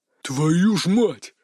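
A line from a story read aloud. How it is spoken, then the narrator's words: Frightened growl. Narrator (Russian): испуганно рыкнул Дикий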